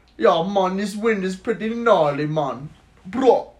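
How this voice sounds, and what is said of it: Attempted Jamaican accent. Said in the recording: “do a Jamaican. ... I don't even know how to do a Jamaican accent good enough”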